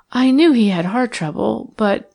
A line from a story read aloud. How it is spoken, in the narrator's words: her voice quivered with feeling